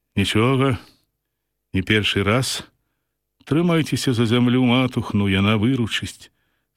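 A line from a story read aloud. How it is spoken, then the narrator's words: Calm. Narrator (Belarusian): спакойна кажа ён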